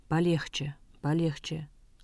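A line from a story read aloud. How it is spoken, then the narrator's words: Calm. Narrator (Russian): спокойно остановил его Анатолий Михайлович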